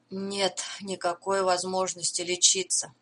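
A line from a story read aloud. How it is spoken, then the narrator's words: Gloomy. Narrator (Russian): мрачно сказал Роулинг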